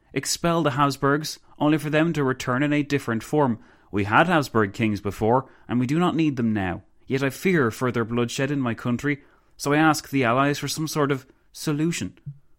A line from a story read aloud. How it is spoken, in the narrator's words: the Countess exclaimed